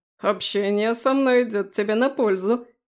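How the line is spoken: Smirking snort. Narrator (Russian): хмыкнул Фрей

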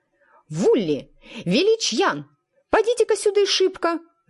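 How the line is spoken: Yelling. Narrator (Russian): завопила

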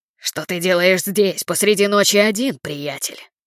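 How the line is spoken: Growling. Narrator (Russian): прорычал

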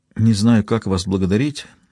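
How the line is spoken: Mumbled. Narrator (Russian): пробормотал Берил

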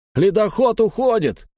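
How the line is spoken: Shouted from above. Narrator (Russian): крикнули сверху

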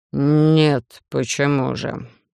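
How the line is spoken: Sudden drawl. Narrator (Russian): Вдруг протянул викинг

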